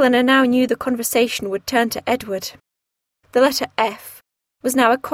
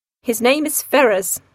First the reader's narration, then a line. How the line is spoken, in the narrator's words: said Sir John